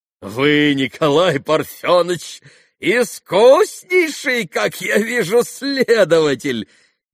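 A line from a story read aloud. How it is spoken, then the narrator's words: Sudden merry laughter. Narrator (Russian): весело рассмеялся вдруг Митя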